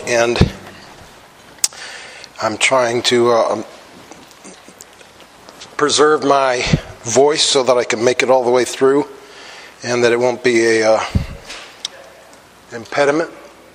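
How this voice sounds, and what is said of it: Voice sounds like a cold. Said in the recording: “I have a cold this morning”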